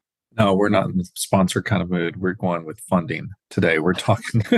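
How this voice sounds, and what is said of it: Usual voice. Nothing is said of it.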